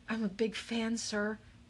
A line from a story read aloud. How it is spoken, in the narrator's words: he said, his voice kind of shaky